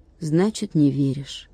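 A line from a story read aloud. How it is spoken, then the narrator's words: Sighing. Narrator (Russian): вздохнул Владик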